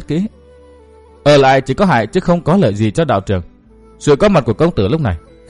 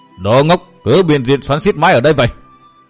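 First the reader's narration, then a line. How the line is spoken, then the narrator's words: Irritated scolding shout. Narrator (Vietnamese): Thiên Huyền Tử gắt giọng la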